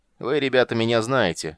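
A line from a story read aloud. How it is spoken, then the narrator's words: Loud leader's announcement. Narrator (Russian): громко объявил главарь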